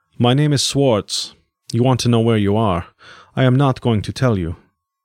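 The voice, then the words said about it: European accent, possibly German. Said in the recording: “He had an accent, European but otherwise unidentifiable, possibly German.”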